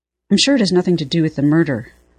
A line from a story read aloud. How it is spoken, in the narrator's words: Fraser said quickly